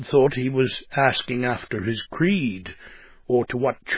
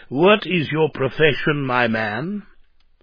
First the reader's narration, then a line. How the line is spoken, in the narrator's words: An official rather pompously inquired